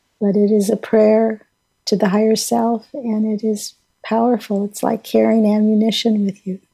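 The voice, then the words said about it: Crackly voice. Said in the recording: “my voice is a little crackly today.”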